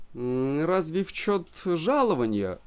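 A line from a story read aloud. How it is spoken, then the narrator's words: Timid remark. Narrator (Russian): робко заметил я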